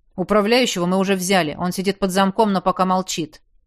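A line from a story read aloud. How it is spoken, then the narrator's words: Grumbling. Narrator (Russian): проворчал Зиль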